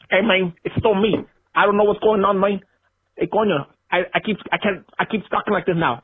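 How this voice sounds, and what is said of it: Put-on Scarface gangster accent. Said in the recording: “I want to hear ... Scarface accent.”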